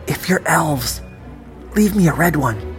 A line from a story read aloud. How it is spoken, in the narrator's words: I whispered